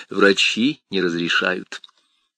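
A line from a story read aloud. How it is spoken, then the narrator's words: Even voice. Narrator (Russian): Мэрин ровным голосом произнес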